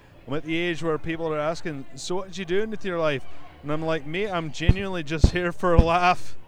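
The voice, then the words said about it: Put-on Scottish accent. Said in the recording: “in my best Scottish accent”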